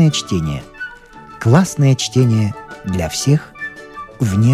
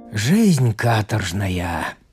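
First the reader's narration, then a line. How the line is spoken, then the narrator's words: Grumbling. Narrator (Russian): ворчал Федор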